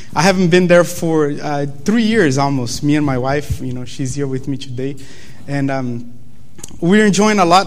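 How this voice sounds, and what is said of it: Brazilian accent. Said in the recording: “you guys probably noticed my accent, you know, the fact that I'm from Brazil”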